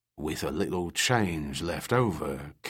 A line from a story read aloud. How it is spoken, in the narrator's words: Captain Kirby breathed